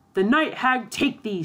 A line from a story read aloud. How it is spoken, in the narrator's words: shouted the other